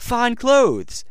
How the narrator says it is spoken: said the first

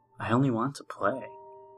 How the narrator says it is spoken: I whispered

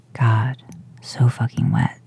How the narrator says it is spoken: hear him rasp out

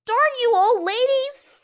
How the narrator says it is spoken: She cried

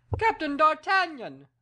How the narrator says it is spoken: cried the king

